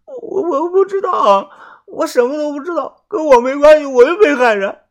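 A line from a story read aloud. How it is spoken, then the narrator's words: Crying, defensive. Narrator (Chinese): 泡菜妹的眼眶顿时红了，哭着辩解的说道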